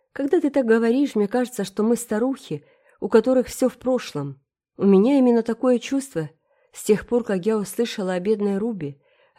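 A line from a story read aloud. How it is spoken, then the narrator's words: Sigh. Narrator (Russian): вздохнула Энн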